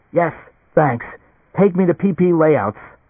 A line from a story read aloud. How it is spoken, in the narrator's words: Gasping, almost unable to breathe, Leo said